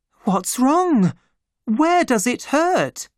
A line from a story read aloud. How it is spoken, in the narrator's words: she cried